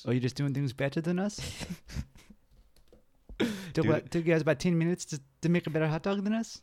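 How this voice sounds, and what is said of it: Poor attempt at New Zealand accent. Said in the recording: “I can say 10 minutes and then the rest of my accent is just trash”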